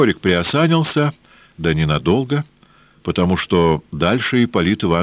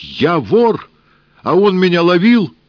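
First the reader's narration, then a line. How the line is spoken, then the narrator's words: Startled shout. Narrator (Russian): От неожиданности Сенька вскочил и крикнул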